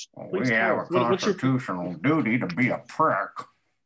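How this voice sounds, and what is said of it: Mitch McConnell impression. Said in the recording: “Mitch ... That was a pretty good impression.”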